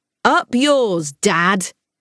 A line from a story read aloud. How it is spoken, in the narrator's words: he shouted as he sped around the last bend